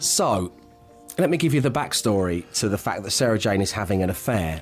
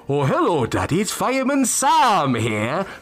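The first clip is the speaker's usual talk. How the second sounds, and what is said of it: Welsh accent as Fireman Sam. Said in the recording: “pretend that I'm on the phone to Fireman Sam and I play both parts ... you've all heard my Welsh accent during this phone call”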